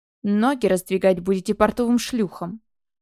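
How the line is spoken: Growling. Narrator (Russian): рыкнула

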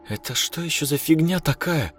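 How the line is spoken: Frightened, muttered. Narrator (Russian): испуганно проронила Настя

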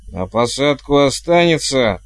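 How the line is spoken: Bellowing over wind. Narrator (Russian): гаркнула матушка, преодолевая вой ветра

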